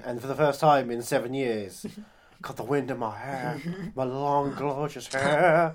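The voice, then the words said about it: Imitates another person's voice. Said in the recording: “That accent was just... It was appallingly good.”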